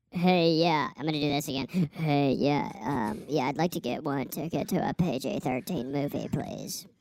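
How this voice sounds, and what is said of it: High-pitched put-on voice. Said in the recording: “give me the high voice”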